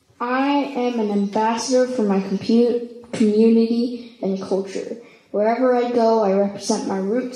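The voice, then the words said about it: East L.A. accent. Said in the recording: “my accent is from, I proudly say East L.A.”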